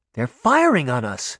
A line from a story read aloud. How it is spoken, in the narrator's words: Sabrina exclaimed